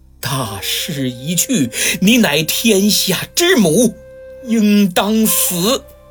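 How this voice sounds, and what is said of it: Firm but trembling voice. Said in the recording (Chinese): “用坚定而颤抖的声音说”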